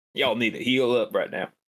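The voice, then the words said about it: Imitates another person's voice. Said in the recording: “my Mahogany Cola impression”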